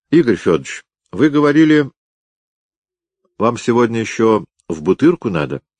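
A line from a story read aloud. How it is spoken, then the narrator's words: Lying. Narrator (Russian): соврал сыщик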